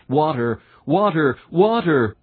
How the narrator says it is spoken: so the Christian cries out

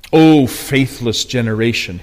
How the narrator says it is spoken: he said

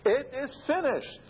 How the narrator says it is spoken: the Lord Jesus Christ cried out victoriously

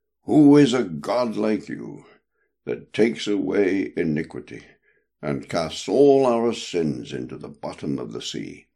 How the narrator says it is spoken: through love and admiration, the prophet cried out, saying

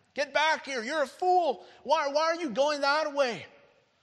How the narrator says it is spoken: the world was screaming at him

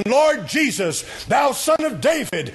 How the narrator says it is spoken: He cried out again

